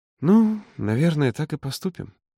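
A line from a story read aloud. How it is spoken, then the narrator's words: Hesitant drawl. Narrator (Russian): неуверенно протянула она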